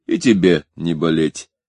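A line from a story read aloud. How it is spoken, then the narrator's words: Laughing. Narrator (Russian): рассмеялся Гуров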